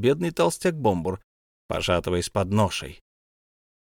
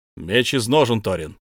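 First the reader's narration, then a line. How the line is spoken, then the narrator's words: Wizard shouting. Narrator (Russian): крикнул волшебник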